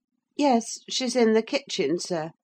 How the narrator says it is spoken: I answered

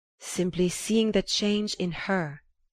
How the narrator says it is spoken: Monsieur Riviere replied

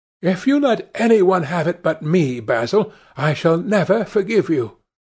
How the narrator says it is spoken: cried Dorian Gray

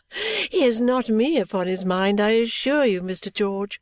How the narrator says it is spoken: said, laughing

